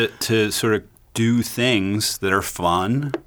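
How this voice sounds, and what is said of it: Usual voice. Nothing is said of it.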